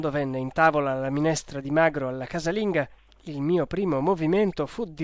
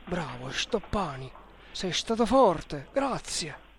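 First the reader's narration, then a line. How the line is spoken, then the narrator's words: Quiet undertone. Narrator (Italian): mi disse sottovoce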